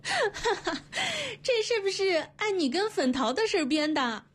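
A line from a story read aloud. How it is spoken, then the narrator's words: Woman giggling while speaking. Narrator (Chinese): 那女人也跟着咯咯的笑了起来，一边笑 一边说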